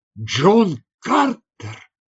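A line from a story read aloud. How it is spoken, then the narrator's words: Exclaimed. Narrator (Russian): воскликнул Ган Хор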